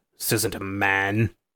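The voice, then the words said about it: Imitates a film character's voice. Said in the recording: “I'm doing a lot of Loomis impersonations. ... You're doing good.”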